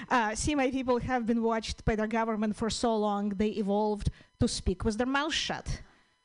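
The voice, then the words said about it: Russian-Ukrainian accented English. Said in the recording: “it's a Russian-Ukrainian accent, one of the hardest to fix”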